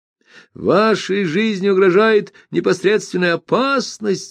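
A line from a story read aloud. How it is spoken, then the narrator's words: Blunt yelling. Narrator (Russian): заорал без всяких обиняков и церемоний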